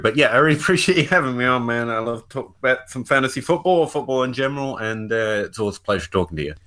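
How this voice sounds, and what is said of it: Kentucky accent. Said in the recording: “you had this awesome accent ... This is just what people in Kentucky sound like ... the Kentucky accent ... Genuine Kentucky accent”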